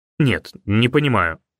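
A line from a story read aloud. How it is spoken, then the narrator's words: Irritated. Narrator (Russian): раздраженно сказал он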